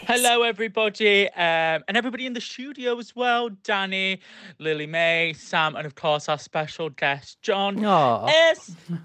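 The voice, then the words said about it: Awful put-on accent. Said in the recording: “awful accent”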